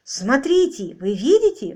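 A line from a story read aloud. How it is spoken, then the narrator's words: Excited. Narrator (Russian): взволнованно произнес Роджер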